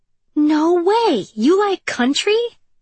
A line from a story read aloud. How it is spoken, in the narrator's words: Avery exclaimed